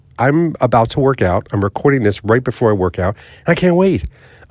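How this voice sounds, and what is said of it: Excited, upbeat voice. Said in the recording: “I'm excited... hopefully you can hear it in my voice.”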